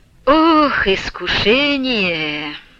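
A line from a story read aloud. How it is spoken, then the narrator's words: Deep sigh. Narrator (Russian): глубоко вздохнул Василий Борисович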